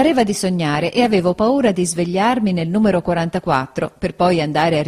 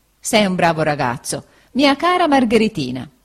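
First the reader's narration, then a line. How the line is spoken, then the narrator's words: Laughing. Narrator (Italian): disse Steerforth ridendo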